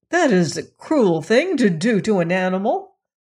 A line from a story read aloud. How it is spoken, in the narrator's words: cried the lad